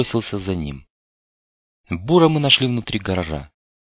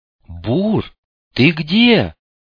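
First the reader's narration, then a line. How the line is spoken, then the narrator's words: Yelling. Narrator (Russian): заорал он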